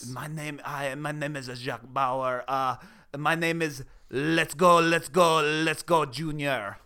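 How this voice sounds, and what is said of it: Put-on French accent. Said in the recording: “That sounded French.”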